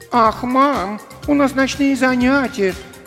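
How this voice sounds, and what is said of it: Mocking imitation of her brother. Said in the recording (Russian): “Передразнила Танька”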